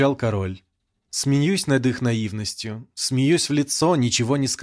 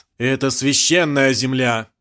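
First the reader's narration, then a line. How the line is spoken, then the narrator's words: Man shouting. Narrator (Russian): выкрикнул один из мужчин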